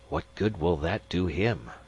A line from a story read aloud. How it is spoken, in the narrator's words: Magnan whispered, looking nervous